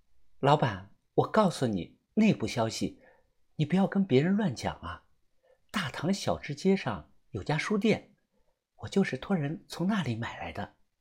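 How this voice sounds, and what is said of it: Speaking quietly, hushed voice. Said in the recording (Chinese): “小声的跟我说”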